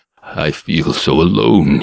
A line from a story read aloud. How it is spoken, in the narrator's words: he mumbled, seeming to wilt in upon himself